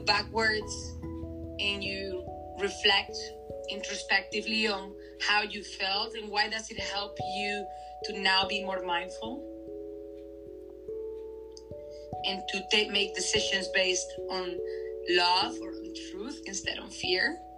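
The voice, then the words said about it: Noticeable accented English. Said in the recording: “your beautiful accent”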